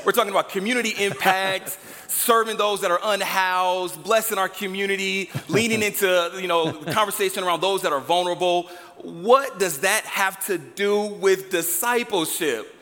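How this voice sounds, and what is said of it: Loud, excited yelling. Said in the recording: “Let me turn my volume down. I'm yelling right now. So I'm getting excited.”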